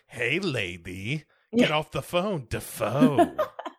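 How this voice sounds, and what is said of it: Imitates another person's voice. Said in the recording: “My Willem Dafoe impression involves me saying the name Dafoe a bunch. It's not great.”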